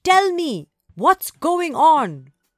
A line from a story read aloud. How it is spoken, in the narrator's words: Shouted